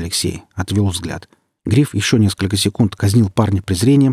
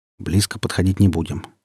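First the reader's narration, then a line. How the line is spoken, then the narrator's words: In an undertone. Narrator (Russian): вполголоса сказал Гриф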